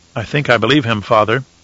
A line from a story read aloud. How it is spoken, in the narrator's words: Leto said quietly